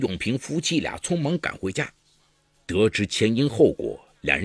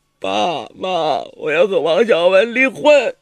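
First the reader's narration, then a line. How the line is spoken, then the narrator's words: Sobbing. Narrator (Chinese): 张芳怡大哭着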